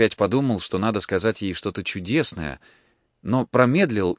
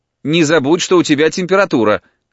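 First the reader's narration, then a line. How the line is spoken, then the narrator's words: Mother calling after someone. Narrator (Russian): крикнула мать вдогонку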